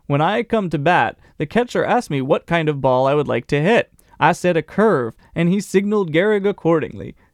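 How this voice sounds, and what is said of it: Drifting southern American accent. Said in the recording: “acquiring a southern accent halfway through his quote”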